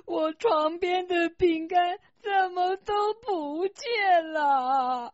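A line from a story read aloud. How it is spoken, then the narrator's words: Crying loudly. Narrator (Chinese): 火龙妈妈躺在床上大哭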